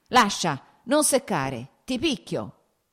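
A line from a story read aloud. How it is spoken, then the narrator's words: Shouted. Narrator (Italian): gridò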